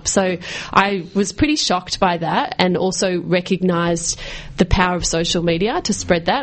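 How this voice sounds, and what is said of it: Australian accent. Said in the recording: “nice Australian accent, meditating to an Australian accent”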